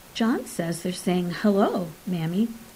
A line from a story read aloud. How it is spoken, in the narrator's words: said Catherine